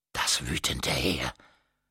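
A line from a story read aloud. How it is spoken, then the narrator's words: Very quiet. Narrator (German): sagte sie wieder sehr leise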